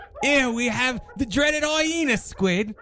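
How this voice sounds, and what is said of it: Bad put-on Australian accent. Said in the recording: “That's the worst Australian accent I've ever tried to do.”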